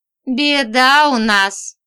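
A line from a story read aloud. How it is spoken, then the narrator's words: Clowning, after laughing. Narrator (Russian): сказал он дурашливо, когда смеяться ему надоело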